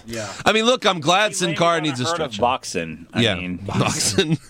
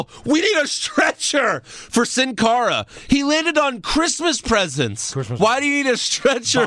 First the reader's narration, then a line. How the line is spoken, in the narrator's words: Then the refs yell